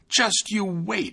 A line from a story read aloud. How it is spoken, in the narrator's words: he exclaimed